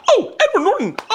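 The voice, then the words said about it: Excited dolphin-like squeal. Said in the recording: “Like a dolphin. ... were you a seal? ... you just turned into a dolphin, man. ... that was a good impression.”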